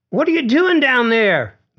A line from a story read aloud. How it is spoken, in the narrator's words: Glitch yelled